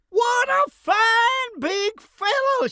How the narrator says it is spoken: she cried

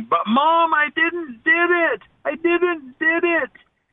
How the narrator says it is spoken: every once in a while I could hear this little boy yelling

